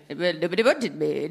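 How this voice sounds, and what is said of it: Imitates another person's voice. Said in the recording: “This is my Nigel Farage impression.”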